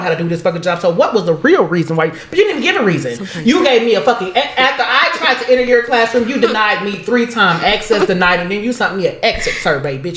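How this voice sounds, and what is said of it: Angry ranting voice. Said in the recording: “She sounds angry.”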